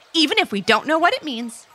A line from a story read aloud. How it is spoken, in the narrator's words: said Levi happily